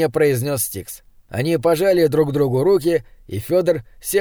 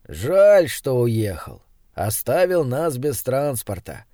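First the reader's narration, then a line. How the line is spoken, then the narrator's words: Sighing. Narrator (Russian): вздохнул Крафт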